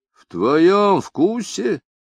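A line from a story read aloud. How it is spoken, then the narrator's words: Furious exclamation. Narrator (Russian): воскликнул Марч, взбешенный равнодушием и воскомерием товарища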